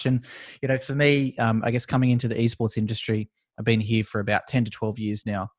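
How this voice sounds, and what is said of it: Australian English accent. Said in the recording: “judging by my accent, you could probably tell I'm from Australia”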